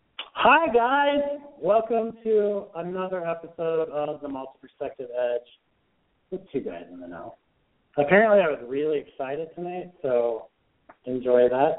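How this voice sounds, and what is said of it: Sick-sounding voice. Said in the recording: “I'm on week 4 of the plague, so you can probably hear it in my voice.”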